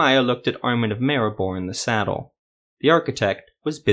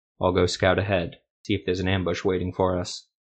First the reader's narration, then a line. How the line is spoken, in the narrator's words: said flatly